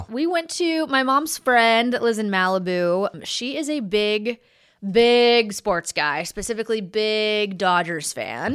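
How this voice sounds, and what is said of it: Southern American accent. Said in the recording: “my southern accent is at its peak ... drinking brings it out. It's just probably still lingering from last night”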